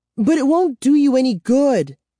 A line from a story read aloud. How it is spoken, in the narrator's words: Kara cried